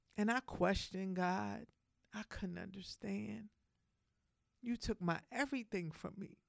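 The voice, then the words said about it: Emotional, voice near tears. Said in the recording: “If I get a little emotional, just I apologize... every time I talk about this, I get a little emotional.”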